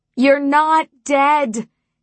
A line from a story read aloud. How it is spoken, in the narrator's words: I shouted over the wind